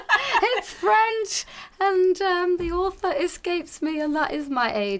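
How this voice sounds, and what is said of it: German-influenced accent. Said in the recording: “you've got that amazing accent, unless you're putting it on ... the amazing accent is I grew up in Munich and Germany till the age of 13”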